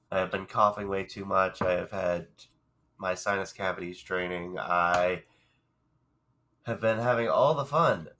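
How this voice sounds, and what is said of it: Congested, hoarse voice. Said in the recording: “I sound a little congested. I am. ... if I sound hoarse”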